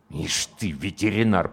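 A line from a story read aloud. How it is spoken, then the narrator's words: Through clenched teeth. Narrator (Russian): процедил комбат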